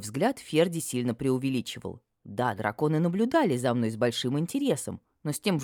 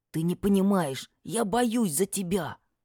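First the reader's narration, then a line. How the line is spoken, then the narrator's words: Hoarse half-whisper. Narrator (Russian): Полушепотом прохрипел фамильяр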